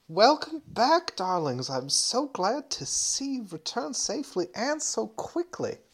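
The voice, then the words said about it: Character voice with approximate accent. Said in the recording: “hang on, I have to dredge up her accent... it might take me a little while to find it again, but I can ballpark it for now”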